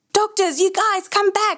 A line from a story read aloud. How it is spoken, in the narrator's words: the paramedic shouts